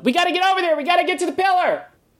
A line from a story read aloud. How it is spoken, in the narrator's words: She yells out